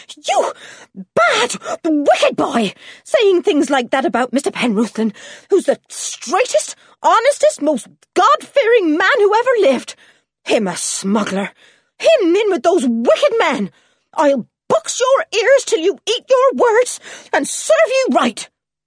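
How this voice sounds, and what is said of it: Angry, panting, out-of-breath voice. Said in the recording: “in a rage ... panted Mrs. Penruthlan, sounding suddenly out of breath.”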